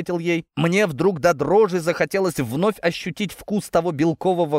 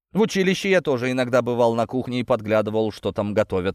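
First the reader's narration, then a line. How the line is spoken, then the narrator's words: Snorting. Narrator (Russian): хмыкнул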